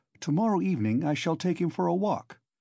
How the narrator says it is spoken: said Razumihin

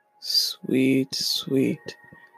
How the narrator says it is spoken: purred

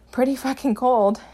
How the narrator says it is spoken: Louis chuckles, remembering

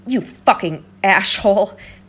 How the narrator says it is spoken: James shouted angrily

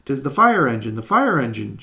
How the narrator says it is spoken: shouted two or three voices

